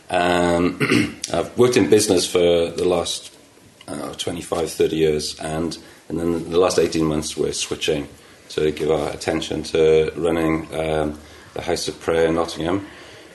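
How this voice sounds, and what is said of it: Welsh accent. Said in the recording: “Welsh, if you're wondering what the accent is”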